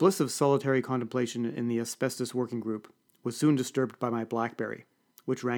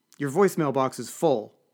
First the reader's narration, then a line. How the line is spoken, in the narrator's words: hissed Lucille